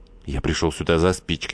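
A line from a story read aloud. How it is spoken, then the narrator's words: Muttering. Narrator (Russian): Глафира Васильевна пробормотал Веслинев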